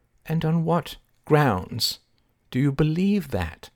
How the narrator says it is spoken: asked Bishop Mercury gently

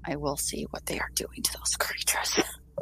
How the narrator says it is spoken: she kind of like whispers, like, or not whispers, but she kind of says in a very low tone

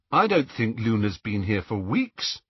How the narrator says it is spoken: said Harry

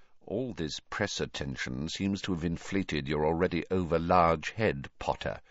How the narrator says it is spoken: said Snape quietly

